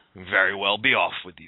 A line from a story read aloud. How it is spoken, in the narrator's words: said the troll